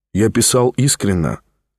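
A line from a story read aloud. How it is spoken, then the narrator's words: Plain. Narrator (Russian): ответил Ставрогин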